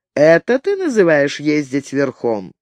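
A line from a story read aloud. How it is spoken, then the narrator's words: Mocking smiling question. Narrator (Russian): Но нумидиец улыбнулся и насмешливо спросил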